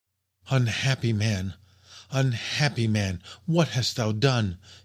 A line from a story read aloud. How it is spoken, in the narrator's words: exclaimed in a low voice